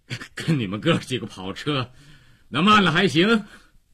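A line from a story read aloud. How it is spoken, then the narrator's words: Tall man, breathless. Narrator (Chinese): 高个子喘着气儿回答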